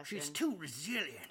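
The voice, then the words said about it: Impression of JR. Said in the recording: “I can't do a JR impression.”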